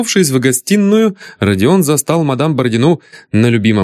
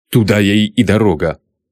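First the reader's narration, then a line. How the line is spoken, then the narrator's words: Growling son. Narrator (Russian): прорычал заботливый сын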